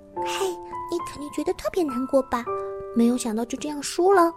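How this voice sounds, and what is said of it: Quiet muttering. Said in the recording (Chinese): “小声的嘀咕说”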